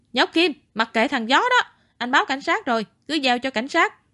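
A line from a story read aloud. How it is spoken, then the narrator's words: Shout from behind. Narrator (Vietnamese): Tam Béo ở phía sau la lên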